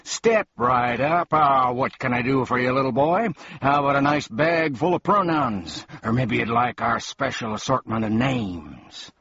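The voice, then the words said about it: Booming market-seller voice. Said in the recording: “announced one man in a booming voice”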